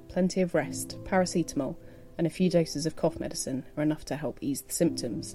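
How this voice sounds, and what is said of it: Congested voice from a cold. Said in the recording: “As you'll possibly be able to hear from my voice, I've been suffering from a cold over the last week.”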